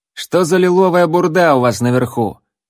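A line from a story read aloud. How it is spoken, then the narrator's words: Loud address. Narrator (Russian): громко обратился к алхимику ассасин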